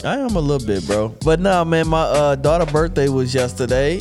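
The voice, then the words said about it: Congested, stuffed-up voice. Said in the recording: “You sound a little stuffed up.”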